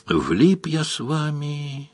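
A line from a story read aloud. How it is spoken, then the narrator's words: Sad. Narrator (Russian): грустно сказал Паколет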